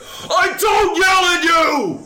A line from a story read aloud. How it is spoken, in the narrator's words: Adam Sandler, in front of all of his friends and family, yells at his daughter